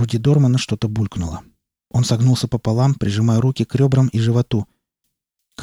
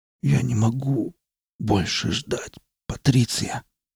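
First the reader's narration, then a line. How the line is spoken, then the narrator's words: Muttered. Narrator (Russian): пробормотал Дорман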